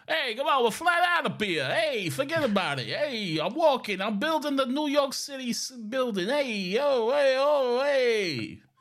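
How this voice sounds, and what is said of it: Italian-American New York accent. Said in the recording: “the more Italian-American New York accent sort of thing”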